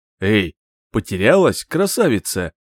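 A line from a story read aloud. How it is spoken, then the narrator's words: Hoarse smoky voice. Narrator (Russian): Раздался из кустов хриплый, прокуренный голос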